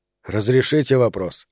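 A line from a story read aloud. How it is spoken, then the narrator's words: Quiet question. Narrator (Russian): тихо спросил Роману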